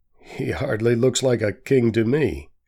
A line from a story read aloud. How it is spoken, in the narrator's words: laughs the judge